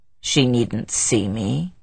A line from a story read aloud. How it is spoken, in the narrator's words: he answered sullenly